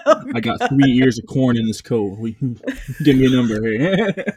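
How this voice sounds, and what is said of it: Shady drug dealer voice. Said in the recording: “Why you sound like a drug dealer right now?”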